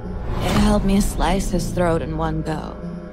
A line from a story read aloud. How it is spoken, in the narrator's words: she murmured